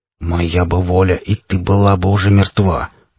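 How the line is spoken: Through gritted teeth. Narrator (Russian): процедил сквозь зубы танк

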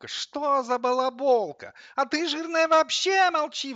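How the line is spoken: Coffee grinder howling, worked up. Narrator (Russian): взвыла кофемолка, заводясь

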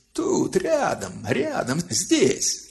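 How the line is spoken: Piercing shriek. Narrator (Russian): она пронзительно взвизгнула

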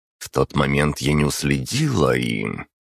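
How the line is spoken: Wincing female growl. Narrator (Russian): поморщилась и прорычала

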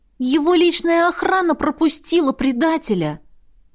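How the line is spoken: Exclaiming. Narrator (Russian): воскликнула Лесли

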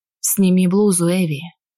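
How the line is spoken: Harsh hoarse command. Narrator (Russian): Мужчина жестко, но сиплым голосом приказал

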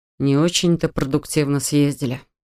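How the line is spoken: Sighed. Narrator (Russian): вздохнул Адам

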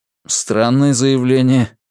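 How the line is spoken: Laughing. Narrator (Russian): хохотнул Вивьен

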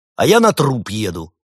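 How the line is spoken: Angry bark. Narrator (Russian): забывшись зло рявкнул Кивинов

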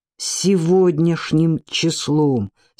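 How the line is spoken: Through gritted teeth. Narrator (Russian): сквозь зубы повторил Ци

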